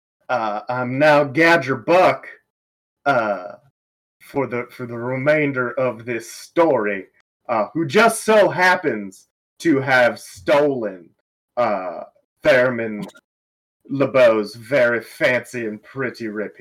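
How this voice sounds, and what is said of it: Exaggerated deep Southern accent. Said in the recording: “speak in a very ridiculous accent, which I will interpret upcountry as deeply southern”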